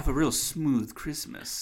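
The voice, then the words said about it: Exaggerated smooth crooning voice. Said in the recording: “my smooth voice ... Oh, it's so smooth”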